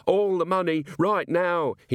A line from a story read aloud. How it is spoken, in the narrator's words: he screamed